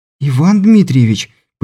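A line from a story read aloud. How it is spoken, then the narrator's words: Sudden exclamation, young woman. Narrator (Russian): почему-то вдруг воскликнула девушка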